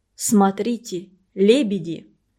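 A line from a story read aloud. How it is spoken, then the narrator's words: Solemn. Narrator (Russian): Урмас сказал как-то торжественно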